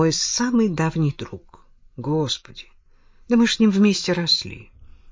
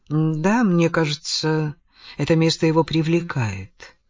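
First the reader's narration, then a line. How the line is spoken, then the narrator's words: Calm. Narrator (Russian): спокойно ответил Адамс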